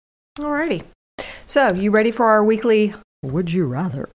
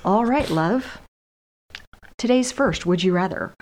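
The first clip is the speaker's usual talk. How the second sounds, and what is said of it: Announcer-style radio voice. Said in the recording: “radio voice”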